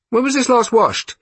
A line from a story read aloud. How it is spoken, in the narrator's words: he called out